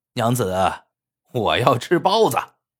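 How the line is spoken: Cheeky, playful. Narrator (Chinese): 侯天云嬉皮笑脸的

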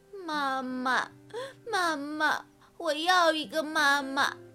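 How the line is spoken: Crying, heartbroken. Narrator (Chinese): 秋秋伤心极了，他开始哭起来

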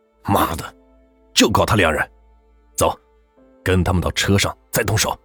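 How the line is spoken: Through gritted teeth, determined. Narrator (Chinese): 张志成一咬牙

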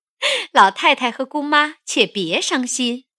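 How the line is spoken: Laughing. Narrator (Chinese): 凤姐笑道

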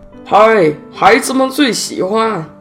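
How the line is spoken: Cheerful calling out. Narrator (Chinese): 一个三十岁左右的人……自得其乐地……嘴里喊着

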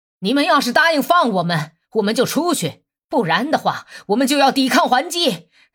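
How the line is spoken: Rough, coarse shouting. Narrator (Chinese): 布多夫斯科夫的喊声听起来是那么粗野

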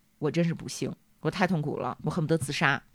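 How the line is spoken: Mournful lament. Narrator (Chinese): 美迪亚哀叹

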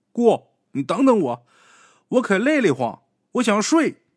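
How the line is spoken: Exhausted call. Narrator (Chinese): 实在是累得不行了，就喊了一句

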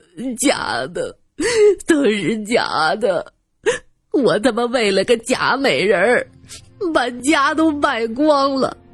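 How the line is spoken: Sudden loud sobbing. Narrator (Chinese): 蒋小开突然大哭起来

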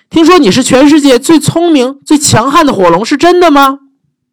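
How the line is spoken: Shouting. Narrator (Chinese): 伊丽莎白大叫

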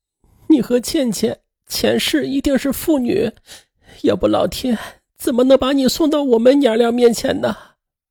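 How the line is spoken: Sobbing uncontrollably. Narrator (Chinese): 刘真失声痛哭

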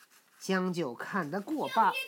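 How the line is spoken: Laughing. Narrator (Chinese): 行者笑道

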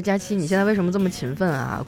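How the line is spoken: Plain. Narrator (Chinese): 谷雨安问

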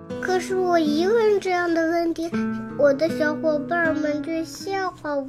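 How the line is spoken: Quiet, downcast. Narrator (Chinese): 菲尔低下头，小声地说

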